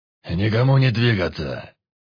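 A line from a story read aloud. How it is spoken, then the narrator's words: Monster's bark. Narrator (Russian): рявкнул монстр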